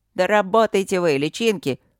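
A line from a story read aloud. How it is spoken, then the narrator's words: Barked shout. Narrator (Russian): рявкнул Якоши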